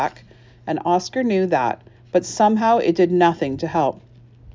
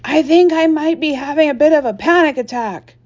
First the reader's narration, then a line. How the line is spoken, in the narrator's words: Oscar's heart skipped a beat, and he leaned closer to Sage and shouted into her ear